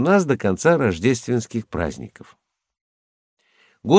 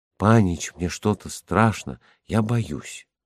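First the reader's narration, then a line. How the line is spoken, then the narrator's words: Whisper. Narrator (Russian): Ганя прошептала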